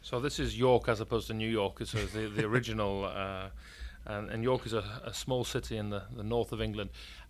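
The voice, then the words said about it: Northern English accent. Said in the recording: “you can probably tell by my northern English accent.”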